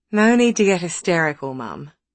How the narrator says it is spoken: Madison had sighed, worldly wise

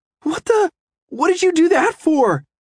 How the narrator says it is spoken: I cried

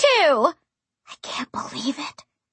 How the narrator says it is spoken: I whispered to Darla

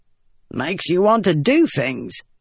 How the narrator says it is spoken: Gaz said with a grunt

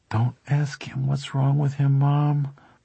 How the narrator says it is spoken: Bobby moaned inside his own head

